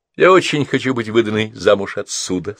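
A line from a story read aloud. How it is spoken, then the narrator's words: Plain. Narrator (Russian): сказала она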